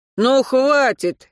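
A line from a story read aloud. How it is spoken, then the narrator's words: Sharp bark. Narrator (Russian): рявкнул Антон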